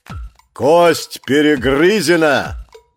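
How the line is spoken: Thundering. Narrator (Russian): прогремел Фао, сын Фауна

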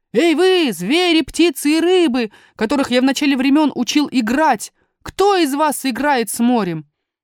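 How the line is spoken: Old man shouting. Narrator (Russian): старый волшебник закричал

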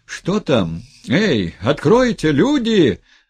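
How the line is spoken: Frantic shouting. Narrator (Russian): Заполошным голосом кричал Сергей Федорович

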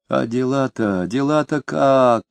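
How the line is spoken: Whining question. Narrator (Russian): ноющим тоном спросил Фроленков

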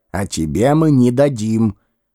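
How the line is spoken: Growling, grumbling. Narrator (Russian): ворчали

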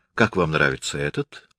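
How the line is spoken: Thoughtful question. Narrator (Russian): задумчиво спрашивал он

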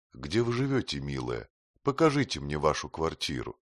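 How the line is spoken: Warm affectionate tone. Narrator (Russian): Артруда сказала Альдонсе ласково

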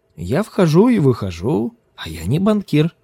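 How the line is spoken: Laughing. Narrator (Russian): засмеялся Ким

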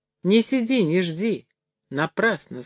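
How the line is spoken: Plain. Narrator (Russian): сказал он ей

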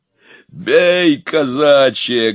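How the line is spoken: Barking shout. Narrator (Russian): гаркнул Илья

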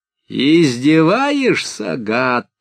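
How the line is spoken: Roaring. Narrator (Russian): взревел модник

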